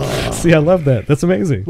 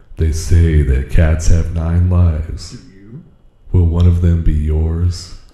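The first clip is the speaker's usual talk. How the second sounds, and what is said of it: Dramatic movie-trailer narrator voice. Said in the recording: “I gotta do my movie voice ... movie voice”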